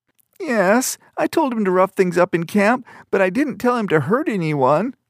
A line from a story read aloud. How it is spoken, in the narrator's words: the trainee whined